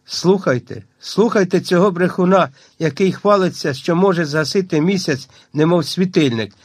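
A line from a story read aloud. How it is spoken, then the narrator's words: Squeaky voice. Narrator (Ukrainian): пищала Гагула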